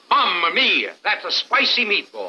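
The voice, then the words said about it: Put-on accent. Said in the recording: “The accent.”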